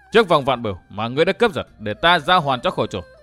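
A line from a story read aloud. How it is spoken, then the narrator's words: Sharp, irritated. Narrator (Vietnamese): Dương Viễn gắt lên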